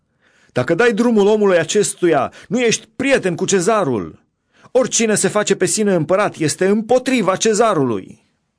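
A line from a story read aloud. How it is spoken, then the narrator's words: Crowd shouting. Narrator (Romanian): iudeii strigau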